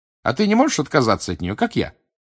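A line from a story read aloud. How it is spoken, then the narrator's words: Brisk, cheerful question. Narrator (Russian): бодро спросила Гермиона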